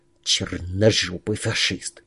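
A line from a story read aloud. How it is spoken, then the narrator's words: Quiet hiss. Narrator (Russian): тихо прошипел бродяга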